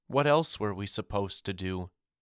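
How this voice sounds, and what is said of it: Tiny small voice. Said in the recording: “In a tiny voice,”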